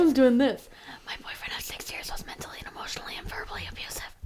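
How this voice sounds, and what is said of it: Usual voice. Nothing is said of it.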